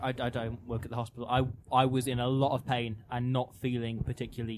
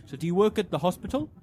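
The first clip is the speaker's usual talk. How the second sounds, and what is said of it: Imitated accent of taxi driver. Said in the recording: “I'm not going to do the accent. ... still kind of did the accent.”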